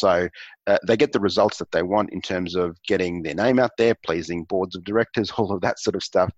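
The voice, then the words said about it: Australian accent. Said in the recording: “your voice, your Australian accent”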